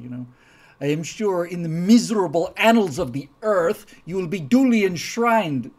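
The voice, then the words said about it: Unidentified put-on accent. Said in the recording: “I don't know what accent that was”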